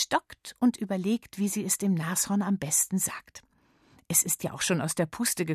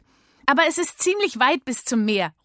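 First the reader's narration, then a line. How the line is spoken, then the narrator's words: Calling out. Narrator (German): ruft Miller noch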